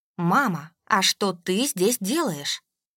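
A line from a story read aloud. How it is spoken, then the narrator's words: Steely question. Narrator (Russian): поинтересовалась я стальным голосом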